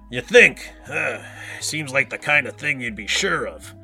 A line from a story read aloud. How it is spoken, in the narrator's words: Spazoid said between grunts